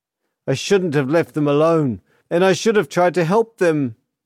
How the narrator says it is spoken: he cried, his face contorted by anguish and self-loathing

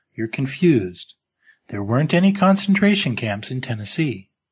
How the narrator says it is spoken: she said kindly

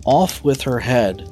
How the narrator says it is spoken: the queen shouted at the top of her voice

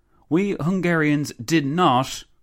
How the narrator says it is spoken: the Countess exclaimed

